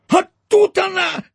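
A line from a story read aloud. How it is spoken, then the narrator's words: Hoarse rasp. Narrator (Russian): просипел он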